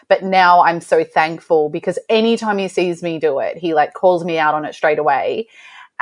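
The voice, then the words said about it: Noticeable accent. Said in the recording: “your accent still throws me a little bit.”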